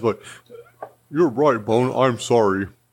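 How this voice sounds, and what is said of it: Imitates another person's voice. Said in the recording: “to do my Josh voice ... Sounded just like him.”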